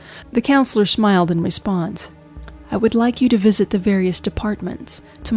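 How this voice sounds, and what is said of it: Usual voice. Nothing is said of it.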